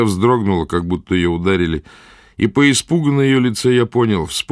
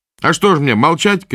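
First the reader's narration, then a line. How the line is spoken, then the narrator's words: Shouted. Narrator (Russian): крикнул Потык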